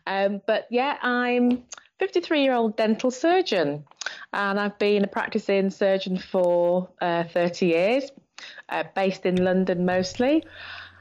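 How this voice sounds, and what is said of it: Yorkshire accent, fast speech. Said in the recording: “I do talk very fast. And I've got a Yorkshire accent”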